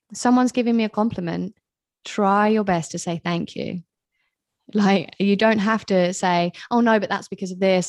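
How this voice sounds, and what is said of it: Mixed British accent. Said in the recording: “I am British. I know my accent is all over the place because I haven't lived in England for a long time. People are always like, where the hell are you from?”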